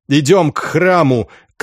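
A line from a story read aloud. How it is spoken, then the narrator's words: Shout. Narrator (Russian): крикнул он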